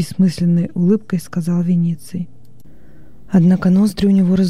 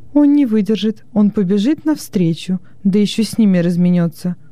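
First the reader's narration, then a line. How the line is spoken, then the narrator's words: Exclaimed. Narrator (Russian): воскликнула Хрисотимида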